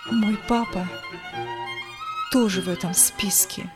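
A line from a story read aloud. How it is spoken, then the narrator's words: Quiet. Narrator (Russian): Валентина тихо ответила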